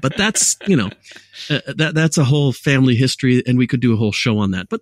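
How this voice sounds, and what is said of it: Mixed, hard-to-place accent. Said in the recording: “my accent was never Californian, dude. It was never Chicago. It was never Detroit. It was never Philadelphia. It was always kind of a mixture accent from a bit of everywhere, and it remains so to this day”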